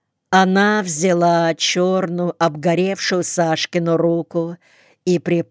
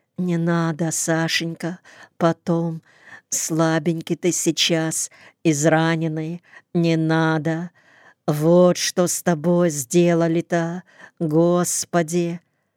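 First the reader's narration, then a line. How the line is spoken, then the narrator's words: Soft murmuring woman. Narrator (Russian): Зина пришептывая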